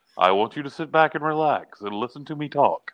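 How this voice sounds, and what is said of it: Calm, soothing NPR-style broadcaster voice. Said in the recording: “it's very relaxing sounding. He sounds like he should be, you know, like on NPR ... He should be a hypnotist ... That is a pretty good impression”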